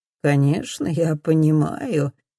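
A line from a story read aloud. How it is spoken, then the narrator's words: Almost purring. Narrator (Russian): Дан почти мурлыкает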